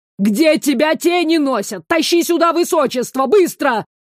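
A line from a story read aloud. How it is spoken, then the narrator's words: Yelling over the phone. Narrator (Russian): заорала трубка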